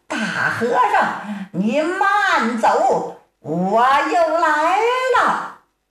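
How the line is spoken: Distant loud shout from woods. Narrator (Chinese): 在松林深处，有人高声断喝

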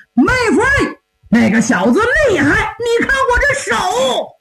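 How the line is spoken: Shouted. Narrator (Chinese): 玉金豹高喊

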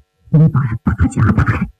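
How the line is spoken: Low voice. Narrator (Chinese): 曹金山低声对另一个牢头说

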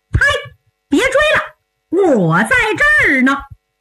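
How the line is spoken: Helpless loud shout. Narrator (Chinese): 万般无奈 高声喝道

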